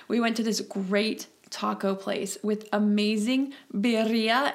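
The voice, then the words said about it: Spanish word with untrilled R's. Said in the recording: “if you speak Spanish, pardon my accent, I'm not great at trilling my R's”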